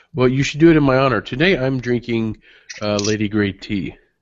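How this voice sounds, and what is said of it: Husky voice, under the weather. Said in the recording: “my oh-so-husky and sexy voice, that I am not 100% today”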